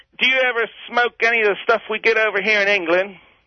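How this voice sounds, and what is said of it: Poor fake English accent. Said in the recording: “The Queen's English. ... That's the most pathetic English accent I've ever heard, mate.”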